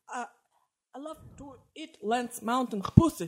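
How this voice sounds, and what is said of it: Labored put-on American accent. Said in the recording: “I'd love to hear an American accent. ... It's too labored. Just relax.”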